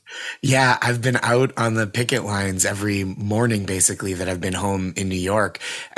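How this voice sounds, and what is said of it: Hoarse, dry voice. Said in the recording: “you're sounding a little bit hoarse. Your voice is a little bit dry ... a lot of chanting ... megaphone chant leading duty”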